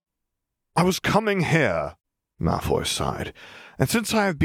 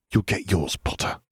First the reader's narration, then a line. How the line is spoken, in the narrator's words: he hissed